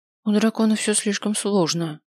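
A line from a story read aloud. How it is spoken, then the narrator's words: Sighing. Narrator (Russian): вздохнула я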